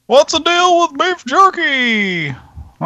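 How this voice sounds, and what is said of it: Jerry Seinfeld impression, sounding like Alf. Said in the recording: “my Jerry Seinfeld impression ... Like Alf. ... That sounded like Alf.”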